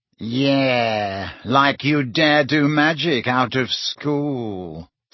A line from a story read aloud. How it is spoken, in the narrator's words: sneered Malfoy